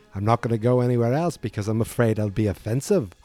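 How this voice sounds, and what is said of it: Put-on Australian accent. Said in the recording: “this is my new accent, which I just developed ... I just went from British to Australian”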